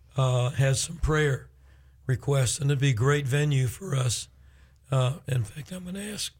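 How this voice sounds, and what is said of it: Rough, strained voice. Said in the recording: “my voice is horrible”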